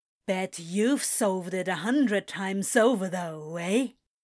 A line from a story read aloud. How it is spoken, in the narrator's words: scoffs